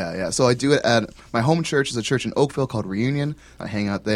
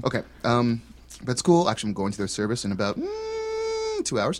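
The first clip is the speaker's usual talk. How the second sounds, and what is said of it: Voice going very high-pitched. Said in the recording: “Your voice went really high there. ... it was a mosquito.”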